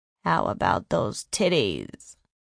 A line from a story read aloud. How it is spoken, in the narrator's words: He was whispering in her ear, taunting her